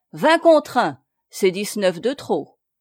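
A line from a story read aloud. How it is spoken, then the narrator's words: Curt haughty newcomer. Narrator (French): dit le nouveau venu d'un ton bref et hautain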